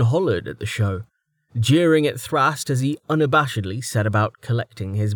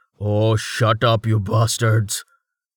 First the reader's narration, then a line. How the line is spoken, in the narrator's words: Thrast rasped